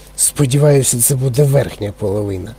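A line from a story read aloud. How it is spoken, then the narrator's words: Grumbled. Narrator (Ukrainian): буркнув пан ТВ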